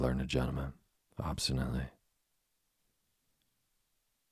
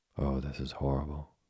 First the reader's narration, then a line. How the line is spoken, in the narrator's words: said Anthea